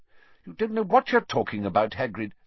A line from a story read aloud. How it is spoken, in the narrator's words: said Fudge sharply